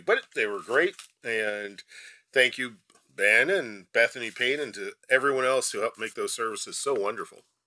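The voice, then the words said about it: Slightly tired, worn voice. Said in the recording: “my voice is a little tired from all the Christmas weekend services”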